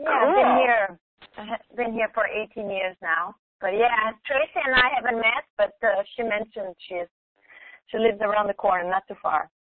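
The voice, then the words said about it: Slight Brazilian accent. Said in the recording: “There's a little bit of an accent. I'm originally from Brazil.”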